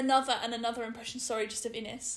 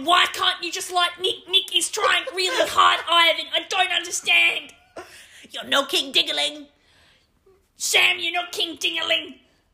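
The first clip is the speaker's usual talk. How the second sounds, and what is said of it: Imitates another person's voice. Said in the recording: “can I do my impression?”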